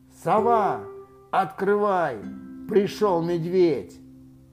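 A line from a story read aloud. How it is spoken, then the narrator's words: Very loud shout. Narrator (Russian): крикнул очень громким голосом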